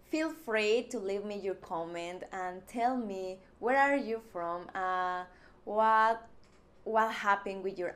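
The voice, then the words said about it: Mexican-accented English. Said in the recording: “I'm just Mexican. Yes, I do have accent.”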